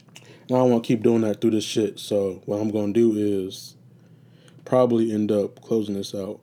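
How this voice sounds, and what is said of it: Raspy, tired voice. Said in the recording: “my voice is getting raspy.”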